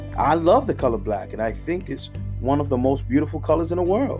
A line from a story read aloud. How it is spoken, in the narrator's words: Grandpa said firmly